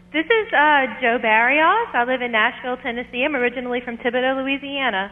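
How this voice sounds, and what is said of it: Southern twang. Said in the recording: “you have that lovely twang in your voice”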